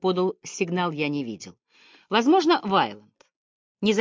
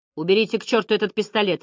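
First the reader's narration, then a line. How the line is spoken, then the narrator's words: Sharp command. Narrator (Russian): резко произнес генерал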